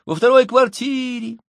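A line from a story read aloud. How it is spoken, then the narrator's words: Children shouting over each other. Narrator (Russian): Дети наперебой закричали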